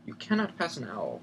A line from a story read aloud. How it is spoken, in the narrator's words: said Professor McGonagall grimly